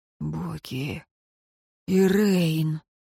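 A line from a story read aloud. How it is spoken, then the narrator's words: Slightly hoarse voice. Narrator (Russian): Чуть охрипший голос смотрителя ворвался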